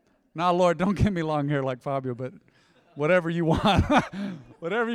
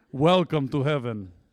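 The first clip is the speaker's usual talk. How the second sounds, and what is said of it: Imitates another person's accented voice. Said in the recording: “I don't even know the guy's accent. It just sounded legit.”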